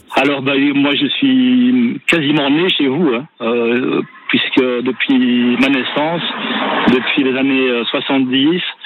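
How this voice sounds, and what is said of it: Belgian French accent. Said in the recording (French): “c'est un accent, mais c'est pas un accent de chez nous, ça ... le plus vauclusien des Belges”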